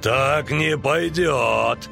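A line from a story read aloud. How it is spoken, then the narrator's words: Growled. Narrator (Russian): зарычал Эйстурсиах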